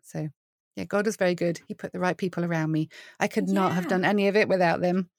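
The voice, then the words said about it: British accent. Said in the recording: “UK ... your accent ... clearly yes, you're not from Texas”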